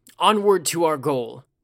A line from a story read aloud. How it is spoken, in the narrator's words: Ujiaki shouted, his eyes shining with the empty gleam of a reclaimed pride